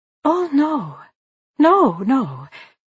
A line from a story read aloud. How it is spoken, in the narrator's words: Marianne exclaimed